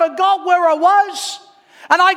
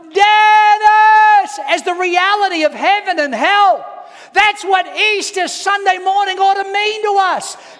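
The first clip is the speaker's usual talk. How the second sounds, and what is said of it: Loud shouting, growing louder. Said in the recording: “I got louder and louder ... I'm crying my eyes out and I'm shouting on the top of my lungs”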